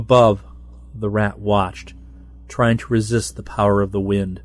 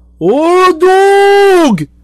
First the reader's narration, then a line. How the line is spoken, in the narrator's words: the voices screamed